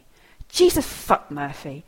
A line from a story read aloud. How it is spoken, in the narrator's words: Tom snaps